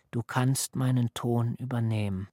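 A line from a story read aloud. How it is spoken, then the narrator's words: Sea's soft careful rushing. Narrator (German): Vorsichtig und leise rauschte das Meer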